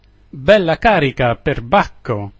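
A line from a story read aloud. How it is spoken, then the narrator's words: Laughing hard, exclaiming. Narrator (Italian): esclamò il comandante ridendo a crepapelle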